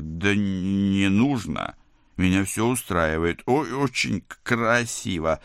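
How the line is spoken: Stammering, forced out. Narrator (Russian): заикаясь, выдавил я

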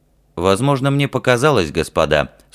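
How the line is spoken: Dry, anxious. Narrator (Russian): сухо сказал Ральф, боялся, что ему не поверят

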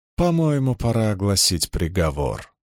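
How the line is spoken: Cold concluding statement. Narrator (Russian): холодно закончила она

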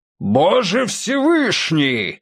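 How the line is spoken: Thunderously loud exclamation. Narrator (Russian): воскликнул человек так громко, что голос этот мог быть сравним с ударом грома или землетрясением

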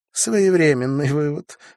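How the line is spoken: Snorting. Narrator (Russian): фыркнула Виктория

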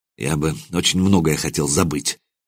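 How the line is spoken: Muttered. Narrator (Russian): пробормотал я

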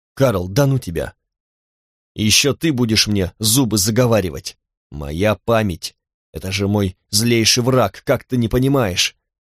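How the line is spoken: Snapping retort. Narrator (Russian): огрызнулся Харди

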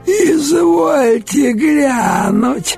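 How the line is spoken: Creaky voice. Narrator (Russian): проскрипела одна, особо выделяющаяся уродливостью даже в столь жутком окружении

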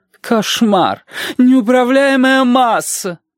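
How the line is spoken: Moaning. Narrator (Russian): простонала Маргарита Митрофановна

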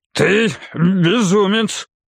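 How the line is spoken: Weakened growling voice. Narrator (Russian): Голос этого человека все еще походил на рычание, но порядком ослабшее

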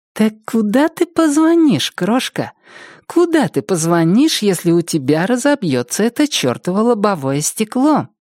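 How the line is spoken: Purring. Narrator (Russian): промурлыкала Триша

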